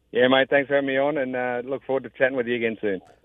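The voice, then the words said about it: Australian accent. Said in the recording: “You can tell by the great accent. He is Australian as well.”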